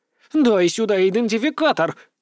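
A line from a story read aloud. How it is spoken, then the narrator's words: Sharp bark. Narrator (Russian): рявкнула она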